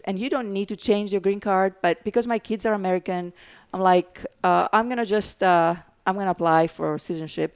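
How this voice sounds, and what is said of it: Greek accent. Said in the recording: “Obviously, I have an accent, so I'm from Greece”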